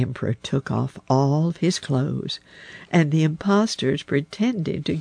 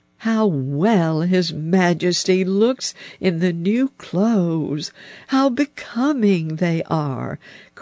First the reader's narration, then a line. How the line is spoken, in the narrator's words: cried all of the people round